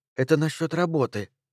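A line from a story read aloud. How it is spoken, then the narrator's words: Whispered. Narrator (Russian): шепнула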